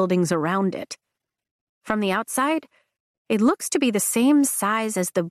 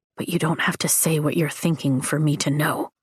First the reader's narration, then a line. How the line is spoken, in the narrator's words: he whispers